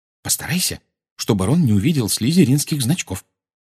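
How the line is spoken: Whispered. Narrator (Russian): шепнула она

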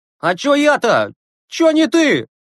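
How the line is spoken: Shout from corridor. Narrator (Russian): крикнул из коридора Загоркин

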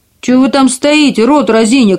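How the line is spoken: Dwarf's angry shout. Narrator (Russian): крикнул карлик, и его землистое лицо побагровело от злости

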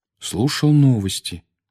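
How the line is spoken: Peaceful calm tone. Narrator (Russian): мирным тоном ответил Гарри

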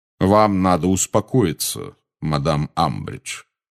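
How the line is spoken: Calm resonant voice. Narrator (Russian): сказал Кингсли спокойным звучным голосом

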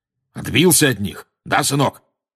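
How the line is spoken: Loud question. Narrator (Russian): громко спросил дядя Вернон

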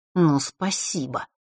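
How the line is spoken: Through gritted teeth. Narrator (Russian): процедил тот

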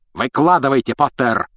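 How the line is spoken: Roaring. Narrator (Russian): взревел он

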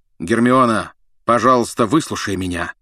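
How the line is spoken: Loud bark. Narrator (Russian): гаркнул Люпин

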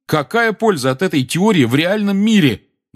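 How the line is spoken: Loud voice. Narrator (Russian): громко подал голос Гарри

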